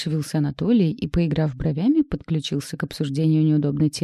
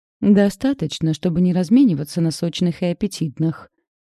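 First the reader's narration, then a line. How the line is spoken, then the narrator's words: Snapping, lying. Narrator (Russian): огрызнулась, соврала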